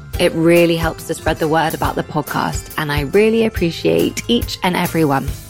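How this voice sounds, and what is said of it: Strong English accent. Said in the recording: “my extreme English accent, ... I pronounce things in the most anglicized way”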